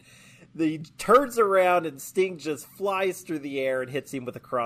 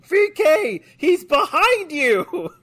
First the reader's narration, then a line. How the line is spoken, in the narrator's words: Bobby just starts screaming